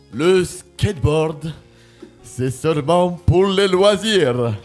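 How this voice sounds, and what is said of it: Put-on Russian accent. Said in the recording (French): “comme accent ? ... Non, c'est russe. ... c'était compliqué à reconnaître.”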